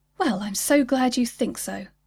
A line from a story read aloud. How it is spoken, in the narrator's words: she replied